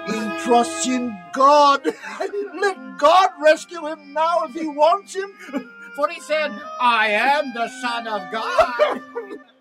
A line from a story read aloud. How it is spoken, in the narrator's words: mocked